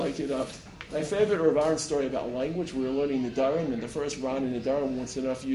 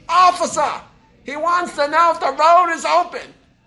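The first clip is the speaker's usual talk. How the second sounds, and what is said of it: Thick Boston accent. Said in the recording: “she's got a very thick Boston accent, Boston”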